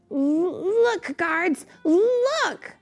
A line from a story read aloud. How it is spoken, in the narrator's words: shouted Eric